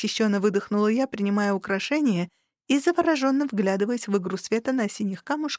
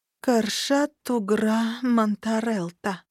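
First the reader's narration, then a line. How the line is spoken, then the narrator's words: Slow reading aloud. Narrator (Russian): медленно прочла я вслух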